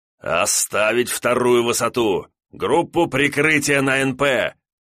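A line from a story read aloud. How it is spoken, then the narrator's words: Growling soldier. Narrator (Russian): прорычал артиллерист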